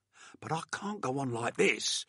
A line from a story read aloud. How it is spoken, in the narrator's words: said angrily